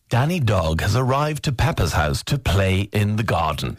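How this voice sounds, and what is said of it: Imitates a kids' show narrator voice. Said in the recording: “narrator on a kids' show. Do the voice thing again. ... The narrator”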